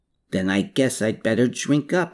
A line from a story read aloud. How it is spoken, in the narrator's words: Hermann replied